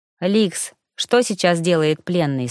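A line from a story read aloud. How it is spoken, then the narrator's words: Plain question. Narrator (Russian): спросила она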